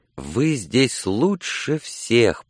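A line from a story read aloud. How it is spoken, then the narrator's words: Whisper. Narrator (Russian): прошептал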